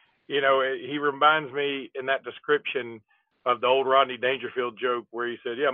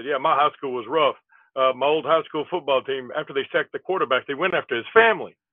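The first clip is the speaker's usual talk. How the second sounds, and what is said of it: Imitates another person's voice. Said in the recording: “that was my Rodney Dangerfield impersonation, brother. ... That wasn't as good as most of you.”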